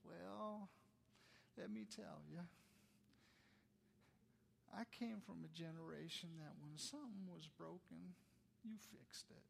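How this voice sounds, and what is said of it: Sweet little old lady voice. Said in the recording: “in her sweet little voice”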